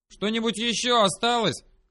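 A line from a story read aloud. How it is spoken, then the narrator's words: Loud question, stout woman. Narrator (Russian): громко спросила толстозадая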